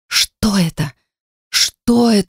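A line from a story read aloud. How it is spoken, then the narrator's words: Cracked-voice mumbling. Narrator (Russian): сорвавшимся голосом забормотала я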